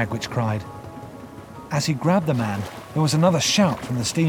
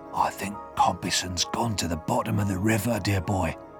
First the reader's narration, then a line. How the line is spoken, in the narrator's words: he whispered to me